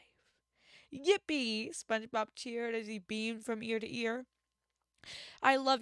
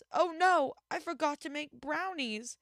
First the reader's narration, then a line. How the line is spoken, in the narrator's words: Meow, groaned Gary